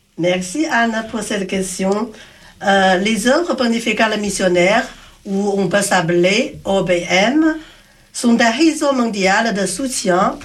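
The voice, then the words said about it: Slight pleasant Asian accent. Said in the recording (French): “vous avez un petit accent bien agréable. Vous êtes originaire de l'Asie, d'un pays asiatique.”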